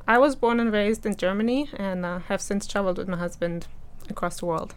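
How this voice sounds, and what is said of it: Noticeable foreign accent. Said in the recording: “I know that they're going to pick up on your accent.”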